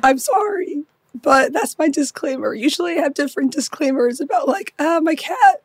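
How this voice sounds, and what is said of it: Voice mostly gone, hoarse. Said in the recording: “Your voice is gone. ... My voice is gone ... I sound like this today.”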